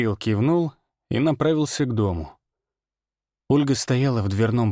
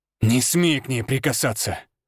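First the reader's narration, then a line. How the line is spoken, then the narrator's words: Growling. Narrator (Russian): Рыкнул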